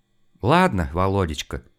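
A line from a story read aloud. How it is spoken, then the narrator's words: Sigh. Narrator (Russian): вздохнула жена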